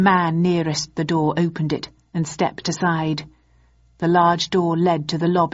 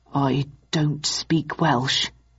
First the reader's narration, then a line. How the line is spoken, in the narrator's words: murmured Mycroft